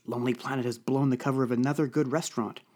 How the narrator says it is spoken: muttered Violet in annoyance

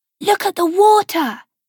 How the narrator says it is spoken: she'd cried to Gabriella, her twin sister, as they'd raced down the cliff path

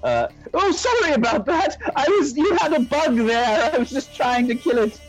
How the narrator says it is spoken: I yell

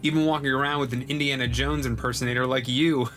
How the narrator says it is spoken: I chuckled

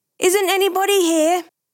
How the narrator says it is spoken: the voice suddenly became raucous, shouting

